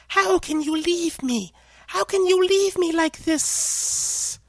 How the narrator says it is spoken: The final sibilance went on hissing

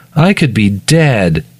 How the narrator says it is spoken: he whines

